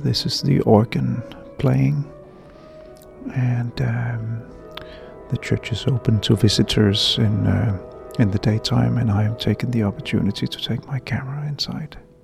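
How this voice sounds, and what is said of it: Quiet, low-voiced speech. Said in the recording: “I'm talking in a low voice, because I'm inside the main room of the church”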